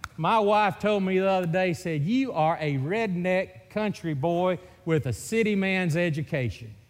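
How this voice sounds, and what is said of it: Mississippi Southern accent. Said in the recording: “this Mississippi accent ... that is a hillbilly from Mississippi”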